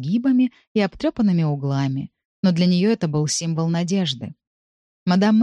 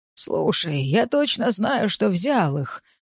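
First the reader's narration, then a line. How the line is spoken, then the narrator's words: Flustered mumbling. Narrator (Russian): бормотал он, роясь в своем багаже уже в пятый раз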